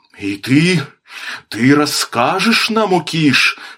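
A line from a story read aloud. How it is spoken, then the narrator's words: Trembling question. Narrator (Russian): спросил Клош-Кван дрожащим голосом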